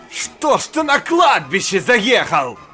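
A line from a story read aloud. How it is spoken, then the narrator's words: Angry shout. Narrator (Russian): Зло крикнул ему доктор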